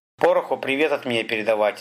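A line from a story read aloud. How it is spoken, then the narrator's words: Plain. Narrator (Russian): сказал он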